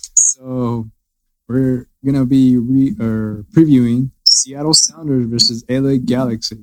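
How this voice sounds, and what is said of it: Usual voice. Nothing is said of it.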